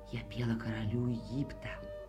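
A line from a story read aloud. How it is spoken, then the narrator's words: Whisper. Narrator (Russian): Она ему прошептала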